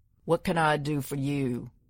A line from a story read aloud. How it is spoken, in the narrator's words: His voice was smoke and whiskey, rocks being worn to sand